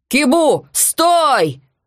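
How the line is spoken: Yelling. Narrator (Russian): завопил он

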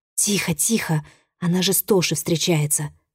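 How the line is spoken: Whisper. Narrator (Russian): зашептала ей подруга

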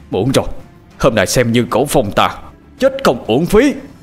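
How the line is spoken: Shouted. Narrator (Vietnamese): Cổ Phong hét lên

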